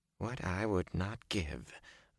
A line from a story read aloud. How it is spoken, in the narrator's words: Varen muttered